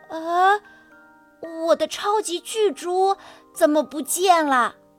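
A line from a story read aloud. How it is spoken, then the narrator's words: Sighing, confused. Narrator (Chinese): 他叹着气，觉得自己的脑袋乱成一团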